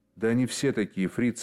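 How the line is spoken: Plain. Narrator (Russian): сказала вторая

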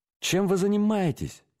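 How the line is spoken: Exclamation. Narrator (Russian): воскликнул Форд

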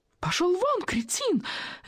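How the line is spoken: Shrieking retort. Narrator (Russian): визжала в ответ Волочковская

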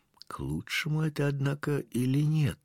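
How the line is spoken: Whispered. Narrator (Russian): прошептал кто-то

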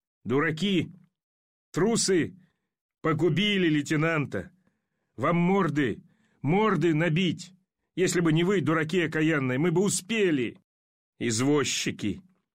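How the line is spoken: Frenzied furious shout. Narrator (Russian): с неудержимым бешенством закричал в неистовстве

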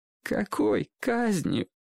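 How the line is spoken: Boy, nearly sobbing. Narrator (Russian): почти рыдающим голосом спросил мальчик

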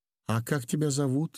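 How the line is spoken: Trembling small voice. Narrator (Russian): спросил Удалов дрогнувшим голоском

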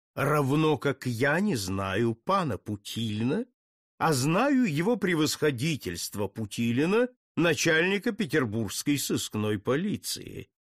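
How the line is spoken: Mocking reply. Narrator (Russian): насмешливо ответил ему Путилин

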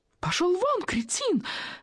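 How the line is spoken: Shrieking. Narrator (Russian): визжала в ответ Волочковская

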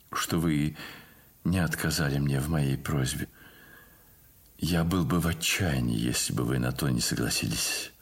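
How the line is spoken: Quiet, sad voice. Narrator (Russian): сказал он тихим и печальным голосом

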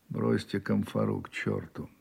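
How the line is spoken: Dry, weak wounded voice. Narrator (Russian): раненый сухо слабо выговорил

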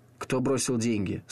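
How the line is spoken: Dry question. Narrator (Russian): сухо спросил он

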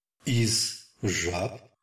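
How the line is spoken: Distant, dreamy voice. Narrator (Russian): произнесла Элиза каким-то далеким, задумчивым голосом

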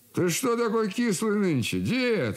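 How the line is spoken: Cheerful question. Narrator (Russian): вопрошал зять весело

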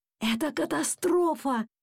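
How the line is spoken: Father's bewildered whisper. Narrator (Russian): растерянно шептал папа

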